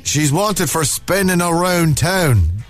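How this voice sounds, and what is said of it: Monaghan Irish accent slipping in. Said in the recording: “Went very Monaghan there, you see, Ted. He tends to go all over.”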